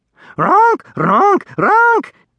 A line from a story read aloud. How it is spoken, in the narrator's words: it screeched